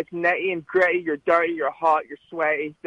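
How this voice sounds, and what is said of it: Scottish accent. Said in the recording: “with the accent, you could tell you're from, all right, Scotland ... Scotland. Don't confuse them.”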